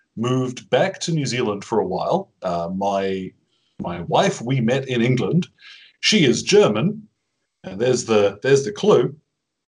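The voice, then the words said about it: Mixed New Zealand and English accent. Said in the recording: “My accent, funnily enough, has always sounded a little weird to wherever I'm from ... my accent went on a bit of a walkabout tour ... how I sound kind of throws a lot of people”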